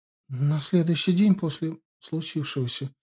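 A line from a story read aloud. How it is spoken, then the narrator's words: Very uncertain. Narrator (Russian): весьма неуверенно ответила Юлия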